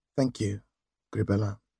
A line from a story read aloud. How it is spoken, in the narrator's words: Softly she added